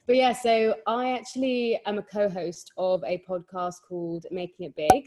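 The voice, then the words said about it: London English accent. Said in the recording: “if you can't tell by my very London accent”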